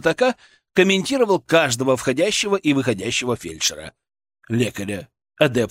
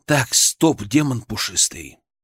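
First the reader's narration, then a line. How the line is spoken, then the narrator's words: Calm, suppressed anger. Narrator (Russian): мой мысленный голос звучал как можно более спокойно, хотя внутри все кипело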